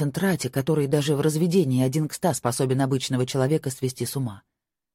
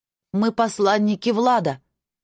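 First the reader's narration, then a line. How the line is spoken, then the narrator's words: Shout. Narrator (Russian): крикнула она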